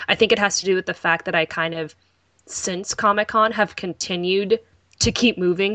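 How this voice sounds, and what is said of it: Worn-out, strained voice. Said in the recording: “my voice is dead. Like, it actually hurts a little bit.”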